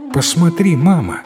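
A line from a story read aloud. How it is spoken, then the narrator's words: Exclaiming. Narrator (Russian): воскликнула Гуарик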